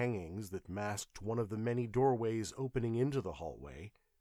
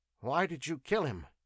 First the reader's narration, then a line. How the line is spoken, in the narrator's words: asked Arras nervously